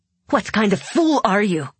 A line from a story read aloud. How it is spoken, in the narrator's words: She spat